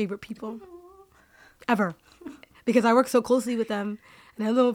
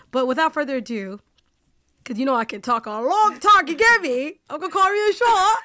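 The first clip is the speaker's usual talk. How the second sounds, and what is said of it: Put-on British accent. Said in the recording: “I do with this British accent ... I have a British accent every now and then”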